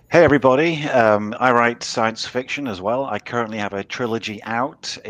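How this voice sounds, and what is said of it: British accent. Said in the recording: “as you can tell from my accent, I'm British”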